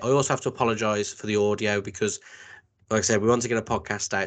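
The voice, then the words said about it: Croaky voice. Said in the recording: “You can probably tell my voice sounds a little bit croaky.”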